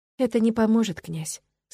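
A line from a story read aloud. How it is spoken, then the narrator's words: Calm, confident objection. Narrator (Russian): спокойно возразила я, сама удивляясь своей внезапной уверенности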